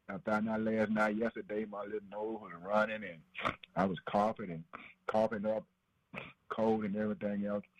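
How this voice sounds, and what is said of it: Congested, stopped-up voice. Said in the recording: “my voice might sound a little funny, a little different, something a little stopped up”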